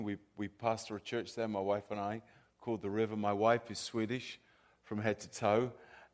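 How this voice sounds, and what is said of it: Southern English accent. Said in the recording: “my accent is from the South of England, not the South of the U.S.”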